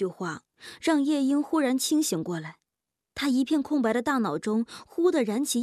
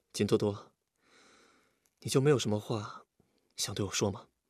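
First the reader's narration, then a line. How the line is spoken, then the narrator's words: Soft smiling question. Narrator (Chinese): 微微笑了笑，低声问道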